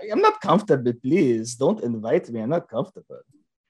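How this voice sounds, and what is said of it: Put-on foreign accent. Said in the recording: “You like that accent?... I don't even know what that was, dude.”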